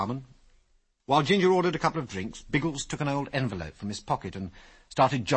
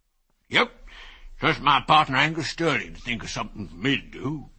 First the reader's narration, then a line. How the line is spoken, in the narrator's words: continued the old man in a wheezy voice